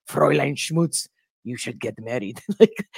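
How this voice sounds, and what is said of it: Poor put-on German accent. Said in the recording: “obviously a German accent, I'm doing horrible.”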